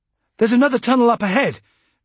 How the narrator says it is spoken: Valade called excitedly

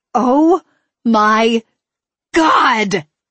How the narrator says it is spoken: I screeched

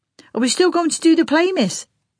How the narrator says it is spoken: Bobby called out

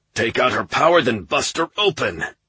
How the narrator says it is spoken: repeated even more urgently

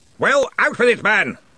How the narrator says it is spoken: roared Ridcully

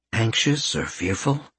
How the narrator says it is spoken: he asked gently

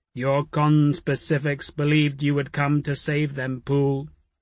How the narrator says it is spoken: the ghost said now, its voice booming over the rising clamour

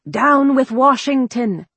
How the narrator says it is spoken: men shouted

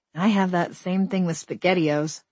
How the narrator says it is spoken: I said

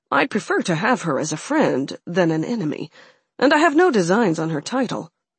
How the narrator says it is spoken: Alex added in quickly at the end

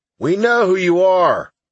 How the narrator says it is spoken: someone shouted from the front of the crowd

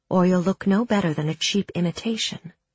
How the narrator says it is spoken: she murmured

